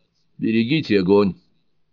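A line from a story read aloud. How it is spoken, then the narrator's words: Shouted. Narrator (Russian): крикнул Скотт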